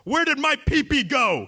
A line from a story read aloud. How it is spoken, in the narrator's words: He screamed